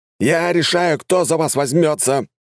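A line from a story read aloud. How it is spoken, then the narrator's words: Barking prince. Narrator (Russian): рявкнул князь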